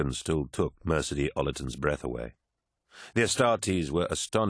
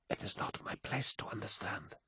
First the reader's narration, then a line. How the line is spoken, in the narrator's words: whispered the astropath